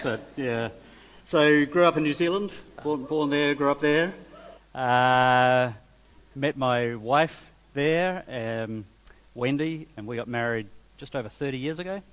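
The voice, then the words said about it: Accent with a slight twang. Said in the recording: “You've got a bit of a twang in your accent”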